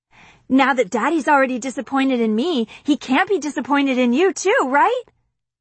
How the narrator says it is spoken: I yell

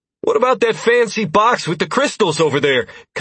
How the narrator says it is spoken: Constantine called out

